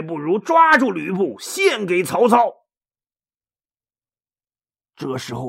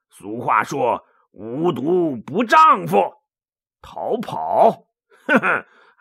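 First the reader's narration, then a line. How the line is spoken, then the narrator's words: Through gritted teeth. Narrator (Chinese): 魏续 一咬牙说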